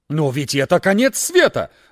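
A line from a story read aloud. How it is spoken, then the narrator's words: Exclaimed. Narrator (Russian): воскликнул редактор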